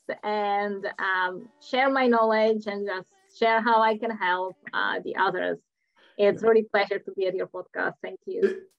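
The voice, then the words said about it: Czech accent in English. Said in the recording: “because people might wonder about my accent, so originally I'm from Czech Republic”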